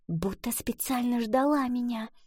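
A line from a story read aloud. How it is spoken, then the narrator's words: Whispered. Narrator (Russian): прошептала она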